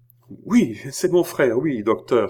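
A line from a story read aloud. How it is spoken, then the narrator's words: Exclaimed. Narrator (French): s'écria André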